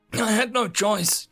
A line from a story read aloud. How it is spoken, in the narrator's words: John said, desperately